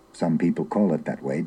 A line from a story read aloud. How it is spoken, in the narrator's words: Don Juan said dryly